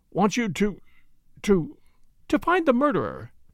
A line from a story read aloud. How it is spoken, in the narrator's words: said Flora in a clear voice